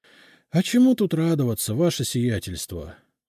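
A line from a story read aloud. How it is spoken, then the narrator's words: Sighing. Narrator (Russian): вздохнул Евсей Митрофанович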